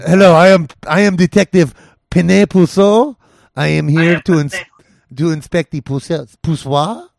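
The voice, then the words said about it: Put-on French accent, detective character. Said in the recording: “my, like, French detective character that I do ... I think I could pull the French one”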